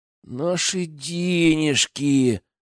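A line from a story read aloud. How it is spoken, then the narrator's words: Sad whine. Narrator (Russian): печально проскулил Генка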